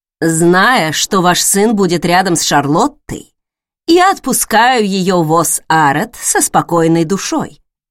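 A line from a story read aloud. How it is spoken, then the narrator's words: Plain. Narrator (Russian): сказала мама Чейсом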